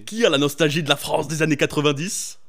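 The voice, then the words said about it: Jean-Marie Le Pen voice impression. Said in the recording (French): “je vais essayer de le faire avec un certain accent juste pour vous guider... c'était un accent Jean-Marie Le Pen un peu là”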